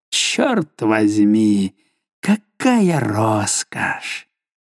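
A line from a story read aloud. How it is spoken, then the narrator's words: Mutter. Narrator (Russian): пробормотав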